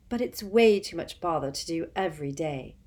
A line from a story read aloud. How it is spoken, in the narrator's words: she said matter-of-factly